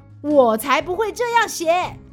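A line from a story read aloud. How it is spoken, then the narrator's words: Lion shouting. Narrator (Chinese): 狮子大叫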